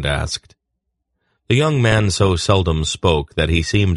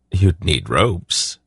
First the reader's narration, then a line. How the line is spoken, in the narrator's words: Silk said in a neutral sort of tone